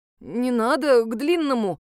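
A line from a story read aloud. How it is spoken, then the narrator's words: Mumbling. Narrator (Russian): промямлил Даня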